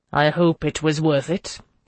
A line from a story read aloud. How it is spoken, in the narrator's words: he said curtly